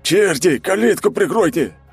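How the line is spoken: Bark. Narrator (Russian): рявкнул обмотанный бинтами

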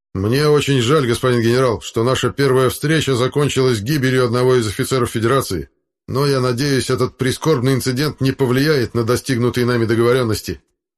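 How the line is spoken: Fairly loud. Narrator (Russian): капитан Шатаев достаточно громко произнес

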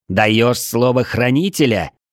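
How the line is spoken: Angry shout. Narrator (Russian): зло выкрикнул я

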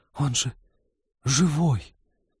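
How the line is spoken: Breathy, forced out. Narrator (Russian): с придыханием выдавил Сбышек

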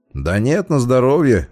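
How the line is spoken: Laughing. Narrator (Russian): рассмеялся я

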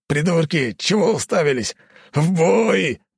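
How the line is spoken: Gruff bark. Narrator (Russian): рыкнул он

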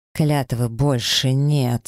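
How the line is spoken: Growled through teeth. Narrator (Russian): сквозь зубы прорычал

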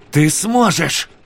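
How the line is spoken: Shouting from above. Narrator (Russian): закричал Сойер с вершины

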